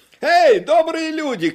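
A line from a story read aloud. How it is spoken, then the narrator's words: Shouting. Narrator (Russian): крикнул он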